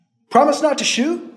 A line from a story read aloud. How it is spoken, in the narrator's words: Alibi shouted the question back down the trail